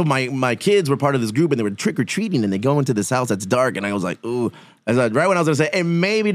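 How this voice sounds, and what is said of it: Usual voice. Nothing is said of it.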